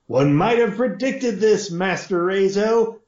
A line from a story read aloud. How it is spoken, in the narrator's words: Fee shouted